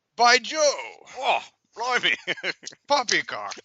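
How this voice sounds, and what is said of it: Exaggerated mock British accent. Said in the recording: “I can't muster a British accent for you right now ... I say, this isn't an accent.”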